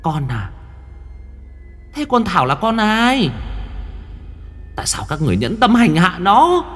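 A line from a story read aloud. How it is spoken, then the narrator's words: Ghost hissing shrilly. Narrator (Vietnamese): Hồn ma của chị rít lên trong làn gió đêm lạnh buốt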